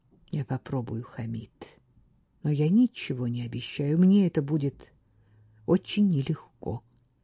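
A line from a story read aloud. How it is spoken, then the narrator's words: Quiet speech. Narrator (Russian): Катриона тихо молвила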